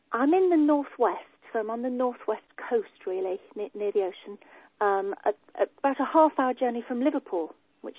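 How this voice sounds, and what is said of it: British accent. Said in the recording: “your home is in the UK ... Which you'll be probably able to tell by my accent. ... Yes, it's lovely. We love your accent.”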